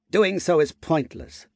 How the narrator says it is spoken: the thought bug said, in a tone similar to a scoff

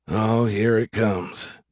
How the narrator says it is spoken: Jesse groaned silently

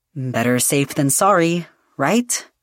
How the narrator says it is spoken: Yadriel said

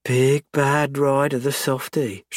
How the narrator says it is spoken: she purrs

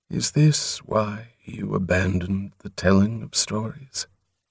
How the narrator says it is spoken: Softly, the giant said

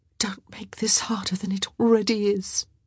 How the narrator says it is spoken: she whispered

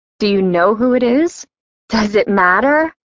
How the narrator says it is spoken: Gus laughed shrewdly

